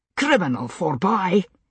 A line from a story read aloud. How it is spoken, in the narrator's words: he snapped